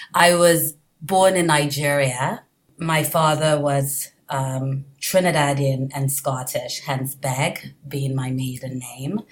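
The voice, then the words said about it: Hybrid mix of international accents. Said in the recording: “it is not a New Jersey accent. It's a it's a what do you call it? It's a hybrid of accents”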